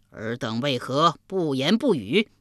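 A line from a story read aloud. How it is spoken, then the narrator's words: Asking three times. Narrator (Chinese): 连问三遍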